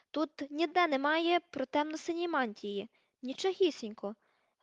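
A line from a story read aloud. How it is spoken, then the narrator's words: Exclamation. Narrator (Ukrainian): вигукнула вона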